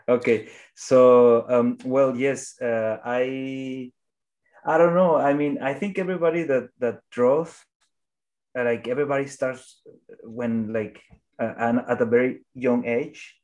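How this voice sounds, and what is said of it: Strong non-native English accent. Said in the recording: “my English is not the best. So I have strong accent.”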